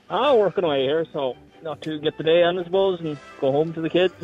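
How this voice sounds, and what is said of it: Northern Irish accent. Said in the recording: “That's a very northern accent to be down the south of Cork.”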